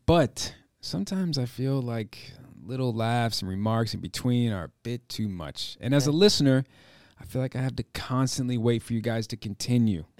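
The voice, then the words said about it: Theatrical monologue acting voice. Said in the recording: “you read that in a monologue acting voice. You're auditioning right now”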